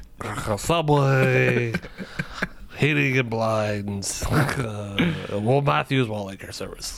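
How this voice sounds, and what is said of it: Imitates another person's voice. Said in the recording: “I'm working on my Madden impression. I'll get there.”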